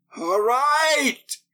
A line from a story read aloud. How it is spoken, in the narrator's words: He shrieked, exhausted